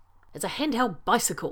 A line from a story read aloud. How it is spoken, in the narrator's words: McKay says impatiently